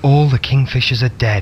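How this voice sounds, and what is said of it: Low, hushed voice. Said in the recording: “he said in a low voice.”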